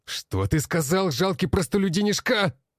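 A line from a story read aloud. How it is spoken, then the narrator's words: Barked. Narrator (Russian): рявкнул блондин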